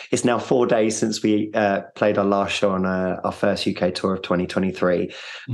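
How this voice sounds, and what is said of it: Tired, worn-out voice. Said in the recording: “Touring's hard work, as you can probably hear in my voice. I'm unbelievably tired.”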